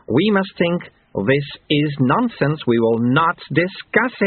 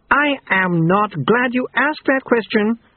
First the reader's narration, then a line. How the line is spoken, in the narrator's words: screamed Mr